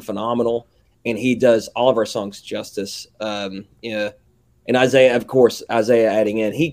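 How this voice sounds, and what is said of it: Southern American accent. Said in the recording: “my southern ass accent”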